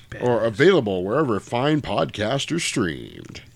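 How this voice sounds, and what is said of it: Polished radio announcer voice. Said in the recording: “radio voice. ... I can tell you sat up straight when you said it.”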